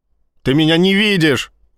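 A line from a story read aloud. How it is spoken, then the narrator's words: Barked. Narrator (Russian): рявкнул он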